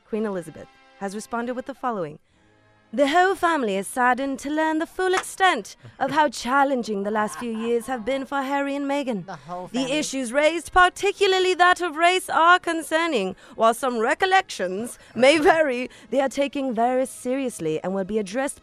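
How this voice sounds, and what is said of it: Put-on British accent. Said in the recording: “can you do in your British accent, please?”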